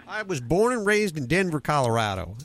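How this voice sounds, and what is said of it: Put-on southern drawl. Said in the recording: “Now I have a southern drawl that I just didn't have 30 seconds ago.”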